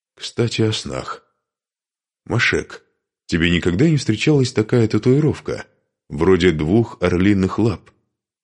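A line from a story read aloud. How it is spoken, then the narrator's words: Plain. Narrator (Russian): спросил Духарев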